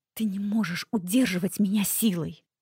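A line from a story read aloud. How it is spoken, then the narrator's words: Whisper. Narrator (Russian): прошептала я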